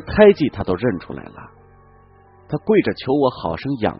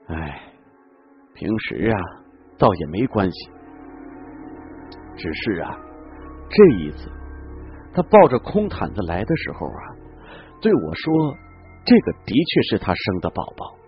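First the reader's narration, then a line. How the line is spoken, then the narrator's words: Sighing. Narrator (Chinese): 陈嬷嬷又叹了口气说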